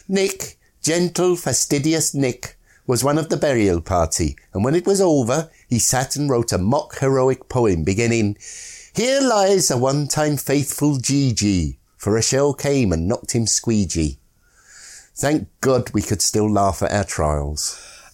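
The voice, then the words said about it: Put-on Scottish accent reading. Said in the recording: “reading in that facetious accent ... it's Scottish”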